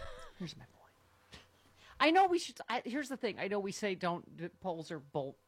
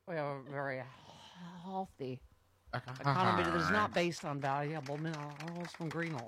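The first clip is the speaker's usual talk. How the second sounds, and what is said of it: Drunken-sounding imitation of another person. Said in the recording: “Drunky McDrunkerson from Drumtown ... My Larry Kudlow impression. ... It's your Foster Brooks doing Larry Kudlow?”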